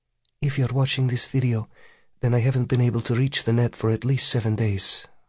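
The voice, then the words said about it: Slight Russian accent. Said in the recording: “She speaks with a slight Russian accent.”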